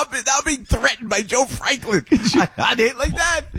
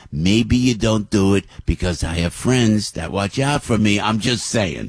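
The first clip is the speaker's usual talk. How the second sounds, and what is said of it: Imitates another person's voice, threatening. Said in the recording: “He says it like that, like a virtual threat.”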